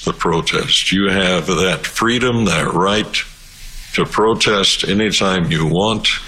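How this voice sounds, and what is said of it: Rural Albertan cowboy-like accent, whistly. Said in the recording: “talks, yeah, like an old cowboy ... He sounds like a farmer ... you're Albertan ... the farmer accent ... He almost has the gopher whistle as well”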